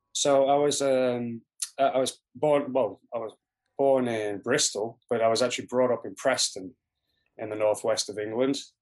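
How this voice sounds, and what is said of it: Mixed northern English accent, slight North American. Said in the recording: “you've got like a little bit of a northern twang with a little bit of like Canadianism and some Americanism in there ... it's a mongrel accent”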